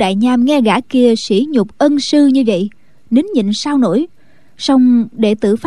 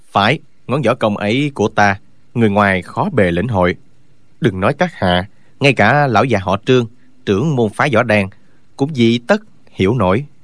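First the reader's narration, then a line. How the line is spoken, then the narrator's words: Cold. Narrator (Vietnamese): Y lạnh lùng nói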